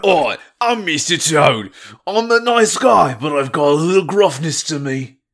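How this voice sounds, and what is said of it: Gruff cartoonish character voice. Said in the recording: “I want to hear your Mr. Toad ... That's at least closer. That is the accent.”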